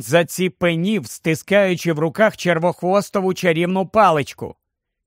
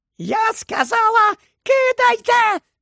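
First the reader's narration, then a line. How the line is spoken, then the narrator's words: Shrieking. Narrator (Ukrainian): заверещала вона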